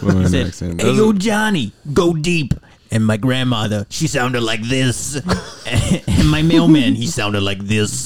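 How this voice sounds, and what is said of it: Put-on Brooklyn accent. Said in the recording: “What accent is that? Is it Brooklyn? ... The Brooklyn. ... Let's do foreign accents.”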